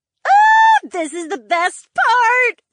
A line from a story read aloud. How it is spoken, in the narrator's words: Valerie squealed